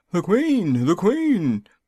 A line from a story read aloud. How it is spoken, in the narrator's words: Five called out